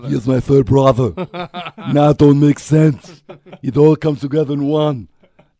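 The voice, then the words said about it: Imitates another person's voice. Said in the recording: “That is my impression of Eddie Murphy.”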